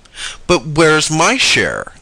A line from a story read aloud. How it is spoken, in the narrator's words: asked the rabbit indignantly